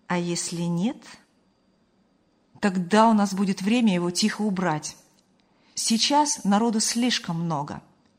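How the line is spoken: Calm reply. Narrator (Russian): спокойно ответил Ильяс

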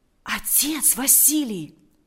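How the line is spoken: Whispered. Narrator (Russian): прошептал Валериан

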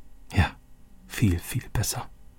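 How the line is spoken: Quiet. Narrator (German): sagte Roberto leise

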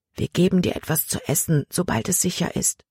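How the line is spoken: Whispering. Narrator (German): flüsterte Samuel ihm zu

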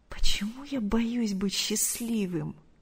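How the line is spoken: Terrified whisper. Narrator (Russian): с ужасом прошептал Артур

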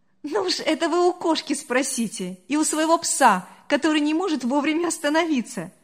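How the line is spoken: Laughing reply. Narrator (Russian): смеясь, ответила Мария

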